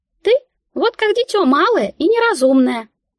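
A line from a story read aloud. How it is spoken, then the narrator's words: Squeak. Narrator (Russian): как-то пискнула мышка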